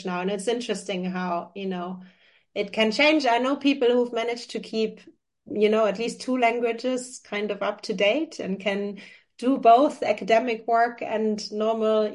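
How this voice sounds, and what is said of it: German accent. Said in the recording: “people will be able to hear this from my accent. German is my mother tongue”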